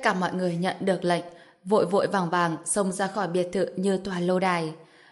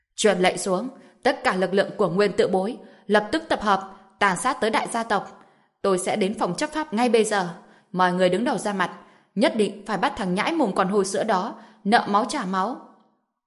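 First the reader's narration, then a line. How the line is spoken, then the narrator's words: Loud commanding shout. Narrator (Vietnamese): Trần Nguyên Tổ gào lớn, quát lên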